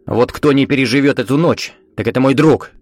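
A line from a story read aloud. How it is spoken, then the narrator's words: Sharp. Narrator (Russian): Резко сказал он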